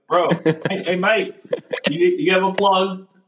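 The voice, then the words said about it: Imitated English accent. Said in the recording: “just impersonated his accent ... also an Englishman?”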